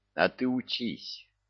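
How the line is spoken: Gloomy advice. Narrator (Russian): мрачно посоветовал Тимур

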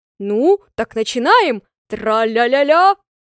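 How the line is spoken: Laughing loudly. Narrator (Russian): он с хохотом

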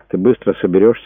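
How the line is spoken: Soft. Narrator (Russian): мягко спросил Брэд

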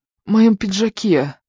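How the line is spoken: Breathless mutter. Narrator (Russian): Задыхаясь, пробормотал мужчина

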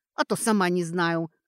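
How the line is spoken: Grumbling, half-smiling. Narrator (Russian): буркнула, невольно начиная улыбаться

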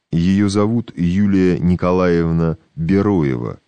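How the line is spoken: Plain. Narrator (Russian): сказал он

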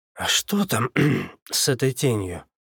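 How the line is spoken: Wheezing, holding back cough. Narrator (Russian): просипел, пытаясь не закашляться

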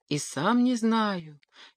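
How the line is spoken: Breathless whisper. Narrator (Russian): чуть дыша прошептал ветер

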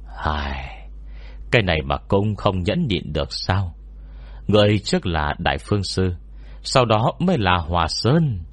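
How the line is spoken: Sighing. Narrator (Vietnamese): Quảng Nhân thở dài nói

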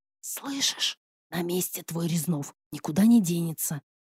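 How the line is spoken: Whisper. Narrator (Russian): прошептала

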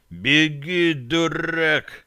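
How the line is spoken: Growled through teeth. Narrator (Russian): прорычал стрелок сквозь зубы

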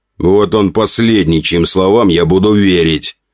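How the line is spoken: Snort. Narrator (Russian): хмыкнул граф Мальков

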